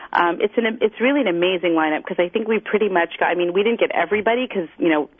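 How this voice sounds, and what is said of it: Montreal accent. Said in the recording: “I can hear your Montreal accent. I can hear your accent.”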